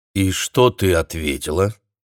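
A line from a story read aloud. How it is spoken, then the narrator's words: Calm question. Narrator (Russian): спокойно спросил Майкл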